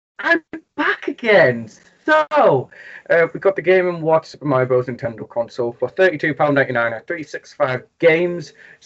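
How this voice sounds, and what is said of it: Geordie English accent. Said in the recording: “it's Geordie. It's from like the Newcastle area ... silky accent”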